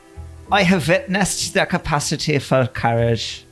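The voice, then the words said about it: Put-on Swedish accent. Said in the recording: “Swedish accent”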